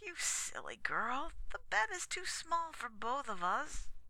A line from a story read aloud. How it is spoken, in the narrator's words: said I sleepily